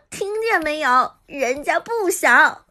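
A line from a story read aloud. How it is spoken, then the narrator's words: Laughing speech. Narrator (Chinese): 韩嫣立即笑道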